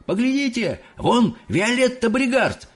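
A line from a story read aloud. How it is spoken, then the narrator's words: Loud yelling. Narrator (Russian): громко орал кто-то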